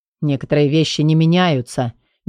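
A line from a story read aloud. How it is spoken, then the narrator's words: Grumbling but glad. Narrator (Russian): проворчал Квон, но было видно, он искренне рад встрече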